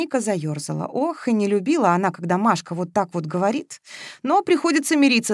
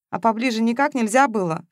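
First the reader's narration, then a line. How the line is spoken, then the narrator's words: Snort. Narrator (Russian): фыркнула Маша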